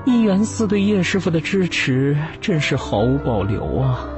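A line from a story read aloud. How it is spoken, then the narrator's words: Sighing exclamation. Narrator (Chinese): 知情人感叹道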